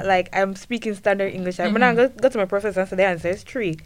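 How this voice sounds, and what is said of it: Thick non-native English accent. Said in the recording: “my accent's so thick”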